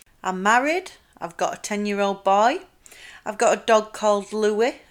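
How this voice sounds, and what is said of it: South Yorkshire English accent. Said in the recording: “the posh, exciting voice that you've just heard will soon start to fade ... the Yorkshire will start coming out ... I'm from South Yorkshire. I'll let you try and guess which area I'm from the accent.”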